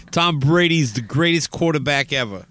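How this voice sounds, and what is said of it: Poor put-on Boston accent. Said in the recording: “I don't do a good Boston accent. ... You really don't”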